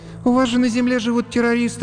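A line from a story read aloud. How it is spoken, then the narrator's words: Sighing. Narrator (Russian): вздохнула Женечка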